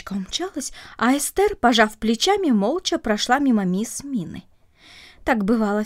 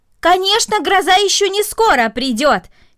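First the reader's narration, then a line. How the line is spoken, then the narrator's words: Shout. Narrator (Russian): крикнула мисс Минна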